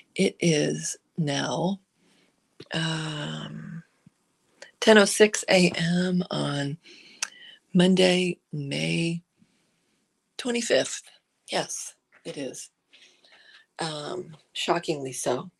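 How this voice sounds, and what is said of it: Tired, sleepy voice. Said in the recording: “I was up earlier than I wanted to be... You can probably tell by my voice, because I really wanted to go back to bed”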